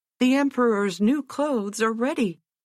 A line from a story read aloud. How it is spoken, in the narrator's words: they cried out at last